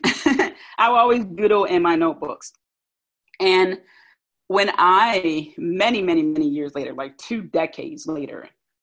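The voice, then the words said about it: South Philly accent, altered pronunciation. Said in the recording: “I have brackets on the back of my teeth, and it's been really interrupting the way I pronounce words. So that on top of my South Philly accent”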